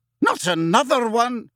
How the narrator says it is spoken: exclaimed Professor McGonagall violently

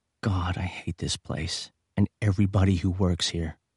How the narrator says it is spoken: said softly

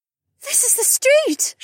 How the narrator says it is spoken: she gasped

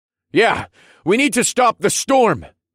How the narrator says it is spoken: I bellowed over the chaos

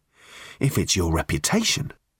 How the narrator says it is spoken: he said quietly

